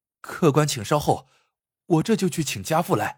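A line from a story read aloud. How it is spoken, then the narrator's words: Hurried, anxious. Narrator (Chinese): 怕父亲不来，这块招牌真要被砸了，于是急忙说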